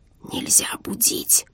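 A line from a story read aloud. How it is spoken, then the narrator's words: Exhausted urgent whisper-shout. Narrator (Russian): Шепотом кричал над ухом желтый от бессонницы адъютант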